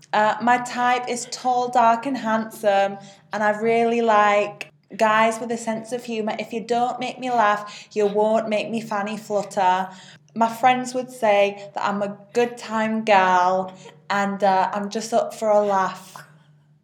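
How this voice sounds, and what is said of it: Put-on Bolton accent. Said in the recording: “Like Bolton.”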